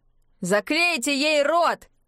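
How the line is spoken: Several offscreen voices yelling. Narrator (Russian): заорали несколько голосов за кадром

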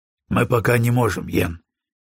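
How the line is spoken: Gentle. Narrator (Russian): мягко произнес Броуди

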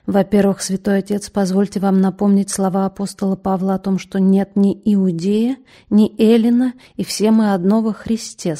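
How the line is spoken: Quiet. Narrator (Russian): сказал он тихо

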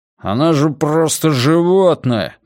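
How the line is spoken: Gruff grumble. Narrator (Russian): буркнул бородатый

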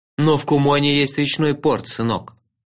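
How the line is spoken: Stern voice. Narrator (Russian): строго сказал сэр Манга

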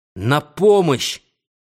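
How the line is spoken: Shouted. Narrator (Russian): Я крикнул в последний раз

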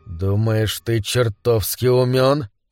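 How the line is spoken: Hissed. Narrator (Russian): прошипел Глен

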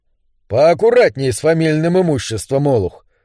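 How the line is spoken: Grumbling. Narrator (Russian): проворчал Бун

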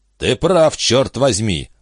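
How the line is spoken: Growl. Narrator (Russian): прорычал Бич

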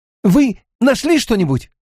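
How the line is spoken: Excited question. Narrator (Russian): взволнованно спросил Мэтт

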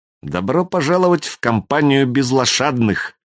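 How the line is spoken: Ruthless, through gritted teeth. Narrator (Russian): процедила Юлька безжалостно

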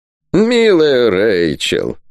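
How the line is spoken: Creaky, almost tender old man. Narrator (Russian): почти ласково проскрипел старый герцог

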